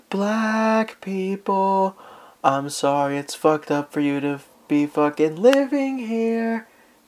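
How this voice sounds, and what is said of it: Whispering, half-sung. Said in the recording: “I have to whisper because it's my neighborhood ... whisper singing”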